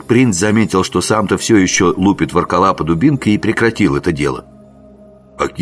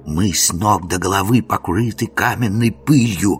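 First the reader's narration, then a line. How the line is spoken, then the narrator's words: Whispering. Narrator (Russian): зашептал принц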